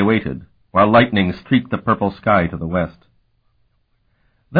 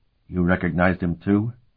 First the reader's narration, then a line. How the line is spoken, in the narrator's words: he whispered to her